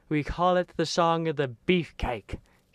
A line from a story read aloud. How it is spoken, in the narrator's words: she yelled